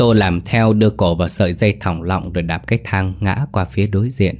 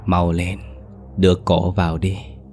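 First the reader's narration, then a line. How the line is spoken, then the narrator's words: Ghostly whisper in ear. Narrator (Vietnamese): Hồn ma của Lụa lại thì thào bên tai hắn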